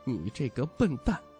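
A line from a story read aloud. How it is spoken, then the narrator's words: Low cursing. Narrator (Chinese): 徐渭雄低声骂道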